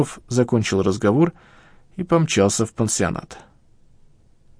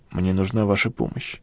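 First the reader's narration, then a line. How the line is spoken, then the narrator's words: Quiet. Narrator (Russian): тихо сказал Леонид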